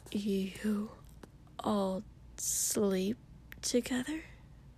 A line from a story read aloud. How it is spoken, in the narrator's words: Ida whispered in shock